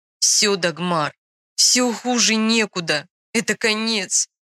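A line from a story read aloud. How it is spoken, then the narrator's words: Tearful exclamation. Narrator (Russian): сквозь слезы воскликнул принц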